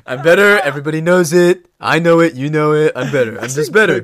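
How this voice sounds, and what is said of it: Imitates another person's voice. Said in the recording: “Good Trump impression.”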